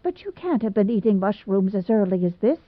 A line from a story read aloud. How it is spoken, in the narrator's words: said Aunt Chatty